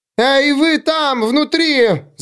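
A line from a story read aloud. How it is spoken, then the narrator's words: Yelling. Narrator (Russian): завопила она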